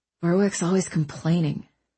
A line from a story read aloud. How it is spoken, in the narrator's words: Owen mumbled